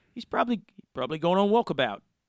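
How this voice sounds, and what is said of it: Poor attempt at Australian accent. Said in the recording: “I apologize if I'm murdering your accent”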